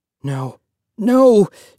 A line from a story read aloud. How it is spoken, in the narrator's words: Joseph cried